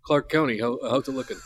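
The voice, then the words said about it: Imitates another person's voice. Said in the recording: “Is that a good impression of your uncle?”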